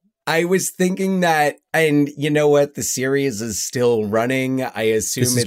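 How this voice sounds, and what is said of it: Usual voice. Nothing is said of it.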